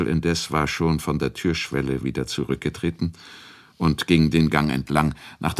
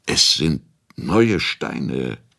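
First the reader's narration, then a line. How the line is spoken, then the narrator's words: Stuttering. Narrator (German): stotterte Hradscheck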